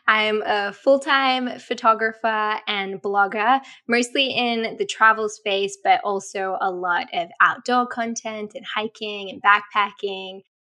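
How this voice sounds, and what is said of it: Australian accent. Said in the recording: “I'm Australian, if you can't tell by my accent.”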